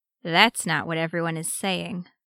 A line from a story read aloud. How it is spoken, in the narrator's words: Arcadius murmured